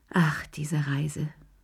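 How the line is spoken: Sighing. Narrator (German): seufzte sie

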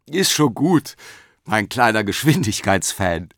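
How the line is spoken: Grandmother laughing reply. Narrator (German): antwortete Oma Mathilde und lachte

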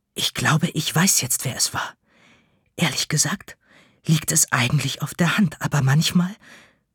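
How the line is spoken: Excited whisper. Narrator (German): die Verkäuferin flüstert aufgeregt

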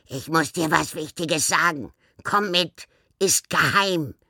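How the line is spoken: Croaking. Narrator (German): krächzte Nivelle ihr zu

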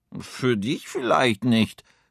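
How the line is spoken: Hat growling. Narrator (German): knurrt der Hut

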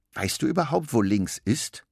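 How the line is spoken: Plain. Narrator (German): fragt Suse

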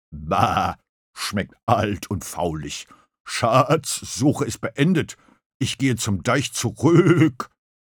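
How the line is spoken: Grumbling. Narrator (German): brummte

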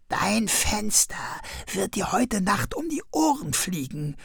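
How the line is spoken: Whispered. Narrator (German): flüsterte Krummel ihm zu

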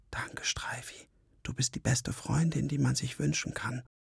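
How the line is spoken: Whisper. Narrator (German): flüsterte

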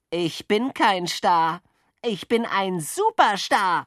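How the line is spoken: Boastful call. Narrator (German): rief Jockel, der immer und überall der Beste sein wollte

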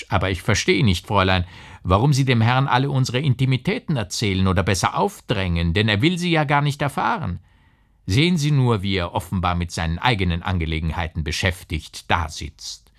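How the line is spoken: Mocking. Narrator (German): sagte der Herr spöttisch

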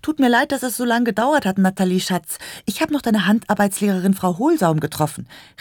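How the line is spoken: Calling from afar. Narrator (German): rief sie schon von Weitem

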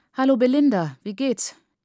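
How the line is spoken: Called out. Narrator (German): rief ich

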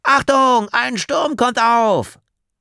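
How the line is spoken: Calling out. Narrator (German): Leo rief

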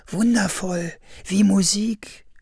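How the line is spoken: Happy male sigh. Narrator (German): seufzte er glücklich

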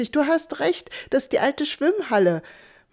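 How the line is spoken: Calling out. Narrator (German): rief ich

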